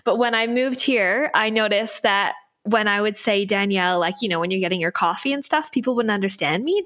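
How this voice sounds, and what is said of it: Canadian accent, not Australian. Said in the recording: “as you can probably hear, I don't have an Aussie accent. So I'm originally from Canada”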